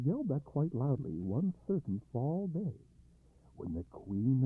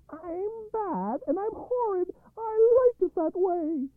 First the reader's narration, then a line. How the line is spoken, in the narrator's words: she would shout